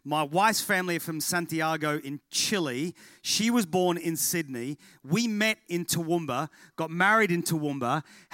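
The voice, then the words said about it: Mild Australian accent. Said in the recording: “lots of people expect an English accent. I'm really sorry. It's less ocker than it used to be, but I'm definitely Australian”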